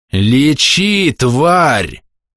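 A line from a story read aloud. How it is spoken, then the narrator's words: Furious growl. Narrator (Russian): прорычал Скули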